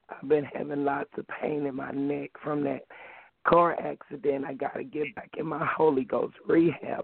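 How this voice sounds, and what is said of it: Hoarse voice. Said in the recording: “I'm a little hoarse today.”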